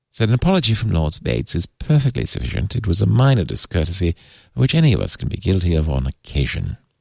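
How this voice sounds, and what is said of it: Exaggerated posh British accent. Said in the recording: “my poncy British accent”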